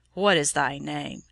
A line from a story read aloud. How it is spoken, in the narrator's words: Dacian looked in anger at the child, and asked her roughly